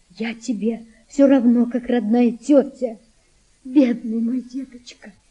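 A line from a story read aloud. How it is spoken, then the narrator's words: Tearful, smiling. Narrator (Russian): она улыбнулась сквозь слезы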